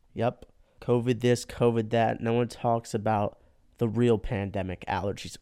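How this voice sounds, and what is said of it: Congested, stuffy-sounding voice. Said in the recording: “if you couldn't tell by my voice, I'm currently getting my ass kicked by allergies”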